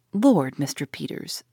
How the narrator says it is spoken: she said

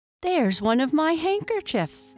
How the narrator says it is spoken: cried Lucy

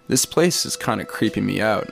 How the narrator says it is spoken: I said

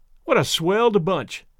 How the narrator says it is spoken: exclaimed Tom Lindsay

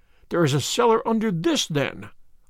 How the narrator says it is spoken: I cried

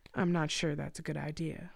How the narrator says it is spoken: the doctor replied calmly

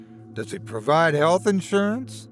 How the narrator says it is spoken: Trevor chuckled to himself

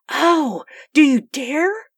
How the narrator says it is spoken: cried Sue

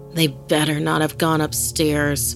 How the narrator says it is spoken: she muttered angrily to herself

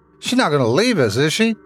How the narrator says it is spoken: Tommy shouted as we both began rushing toward the top of the hill

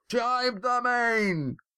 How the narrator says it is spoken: Adraman and Mirak shouted at the same time

